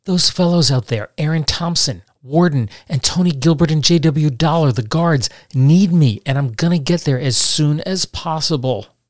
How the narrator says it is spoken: he pleaded with Calloway

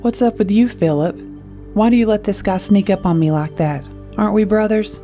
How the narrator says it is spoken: Louis laughed

